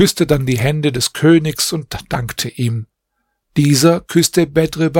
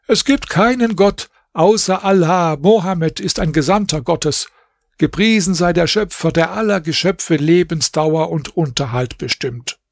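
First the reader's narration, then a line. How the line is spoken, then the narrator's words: Calling out. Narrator (German): Bedr Basim rief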